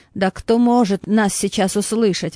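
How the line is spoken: Exclamation. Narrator (Russian): воскликнул Хаттуб

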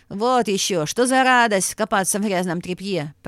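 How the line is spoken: Grumbling guard. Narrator (Russian): проворчал стражник

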